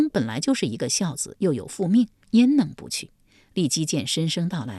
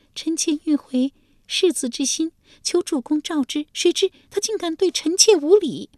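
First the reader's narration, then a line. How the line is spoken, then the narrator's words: Sobbing. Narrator (Chinese): 利基…呜的一声哭了出来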